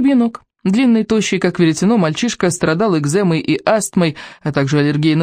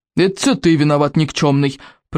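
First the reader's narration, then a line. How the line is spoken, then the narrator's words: Cousin's growl. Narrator (Russian): прорычал сморкал водоворот Икингов двоюрный братец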